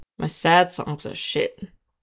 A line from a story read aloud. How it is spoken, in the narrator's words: Ed grumbled